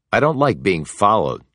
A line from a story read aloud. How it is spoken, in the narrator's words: he said crossly